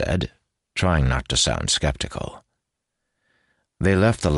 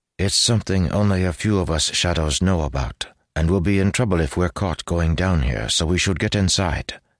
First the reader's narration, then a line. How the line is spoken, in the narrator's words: he said quickly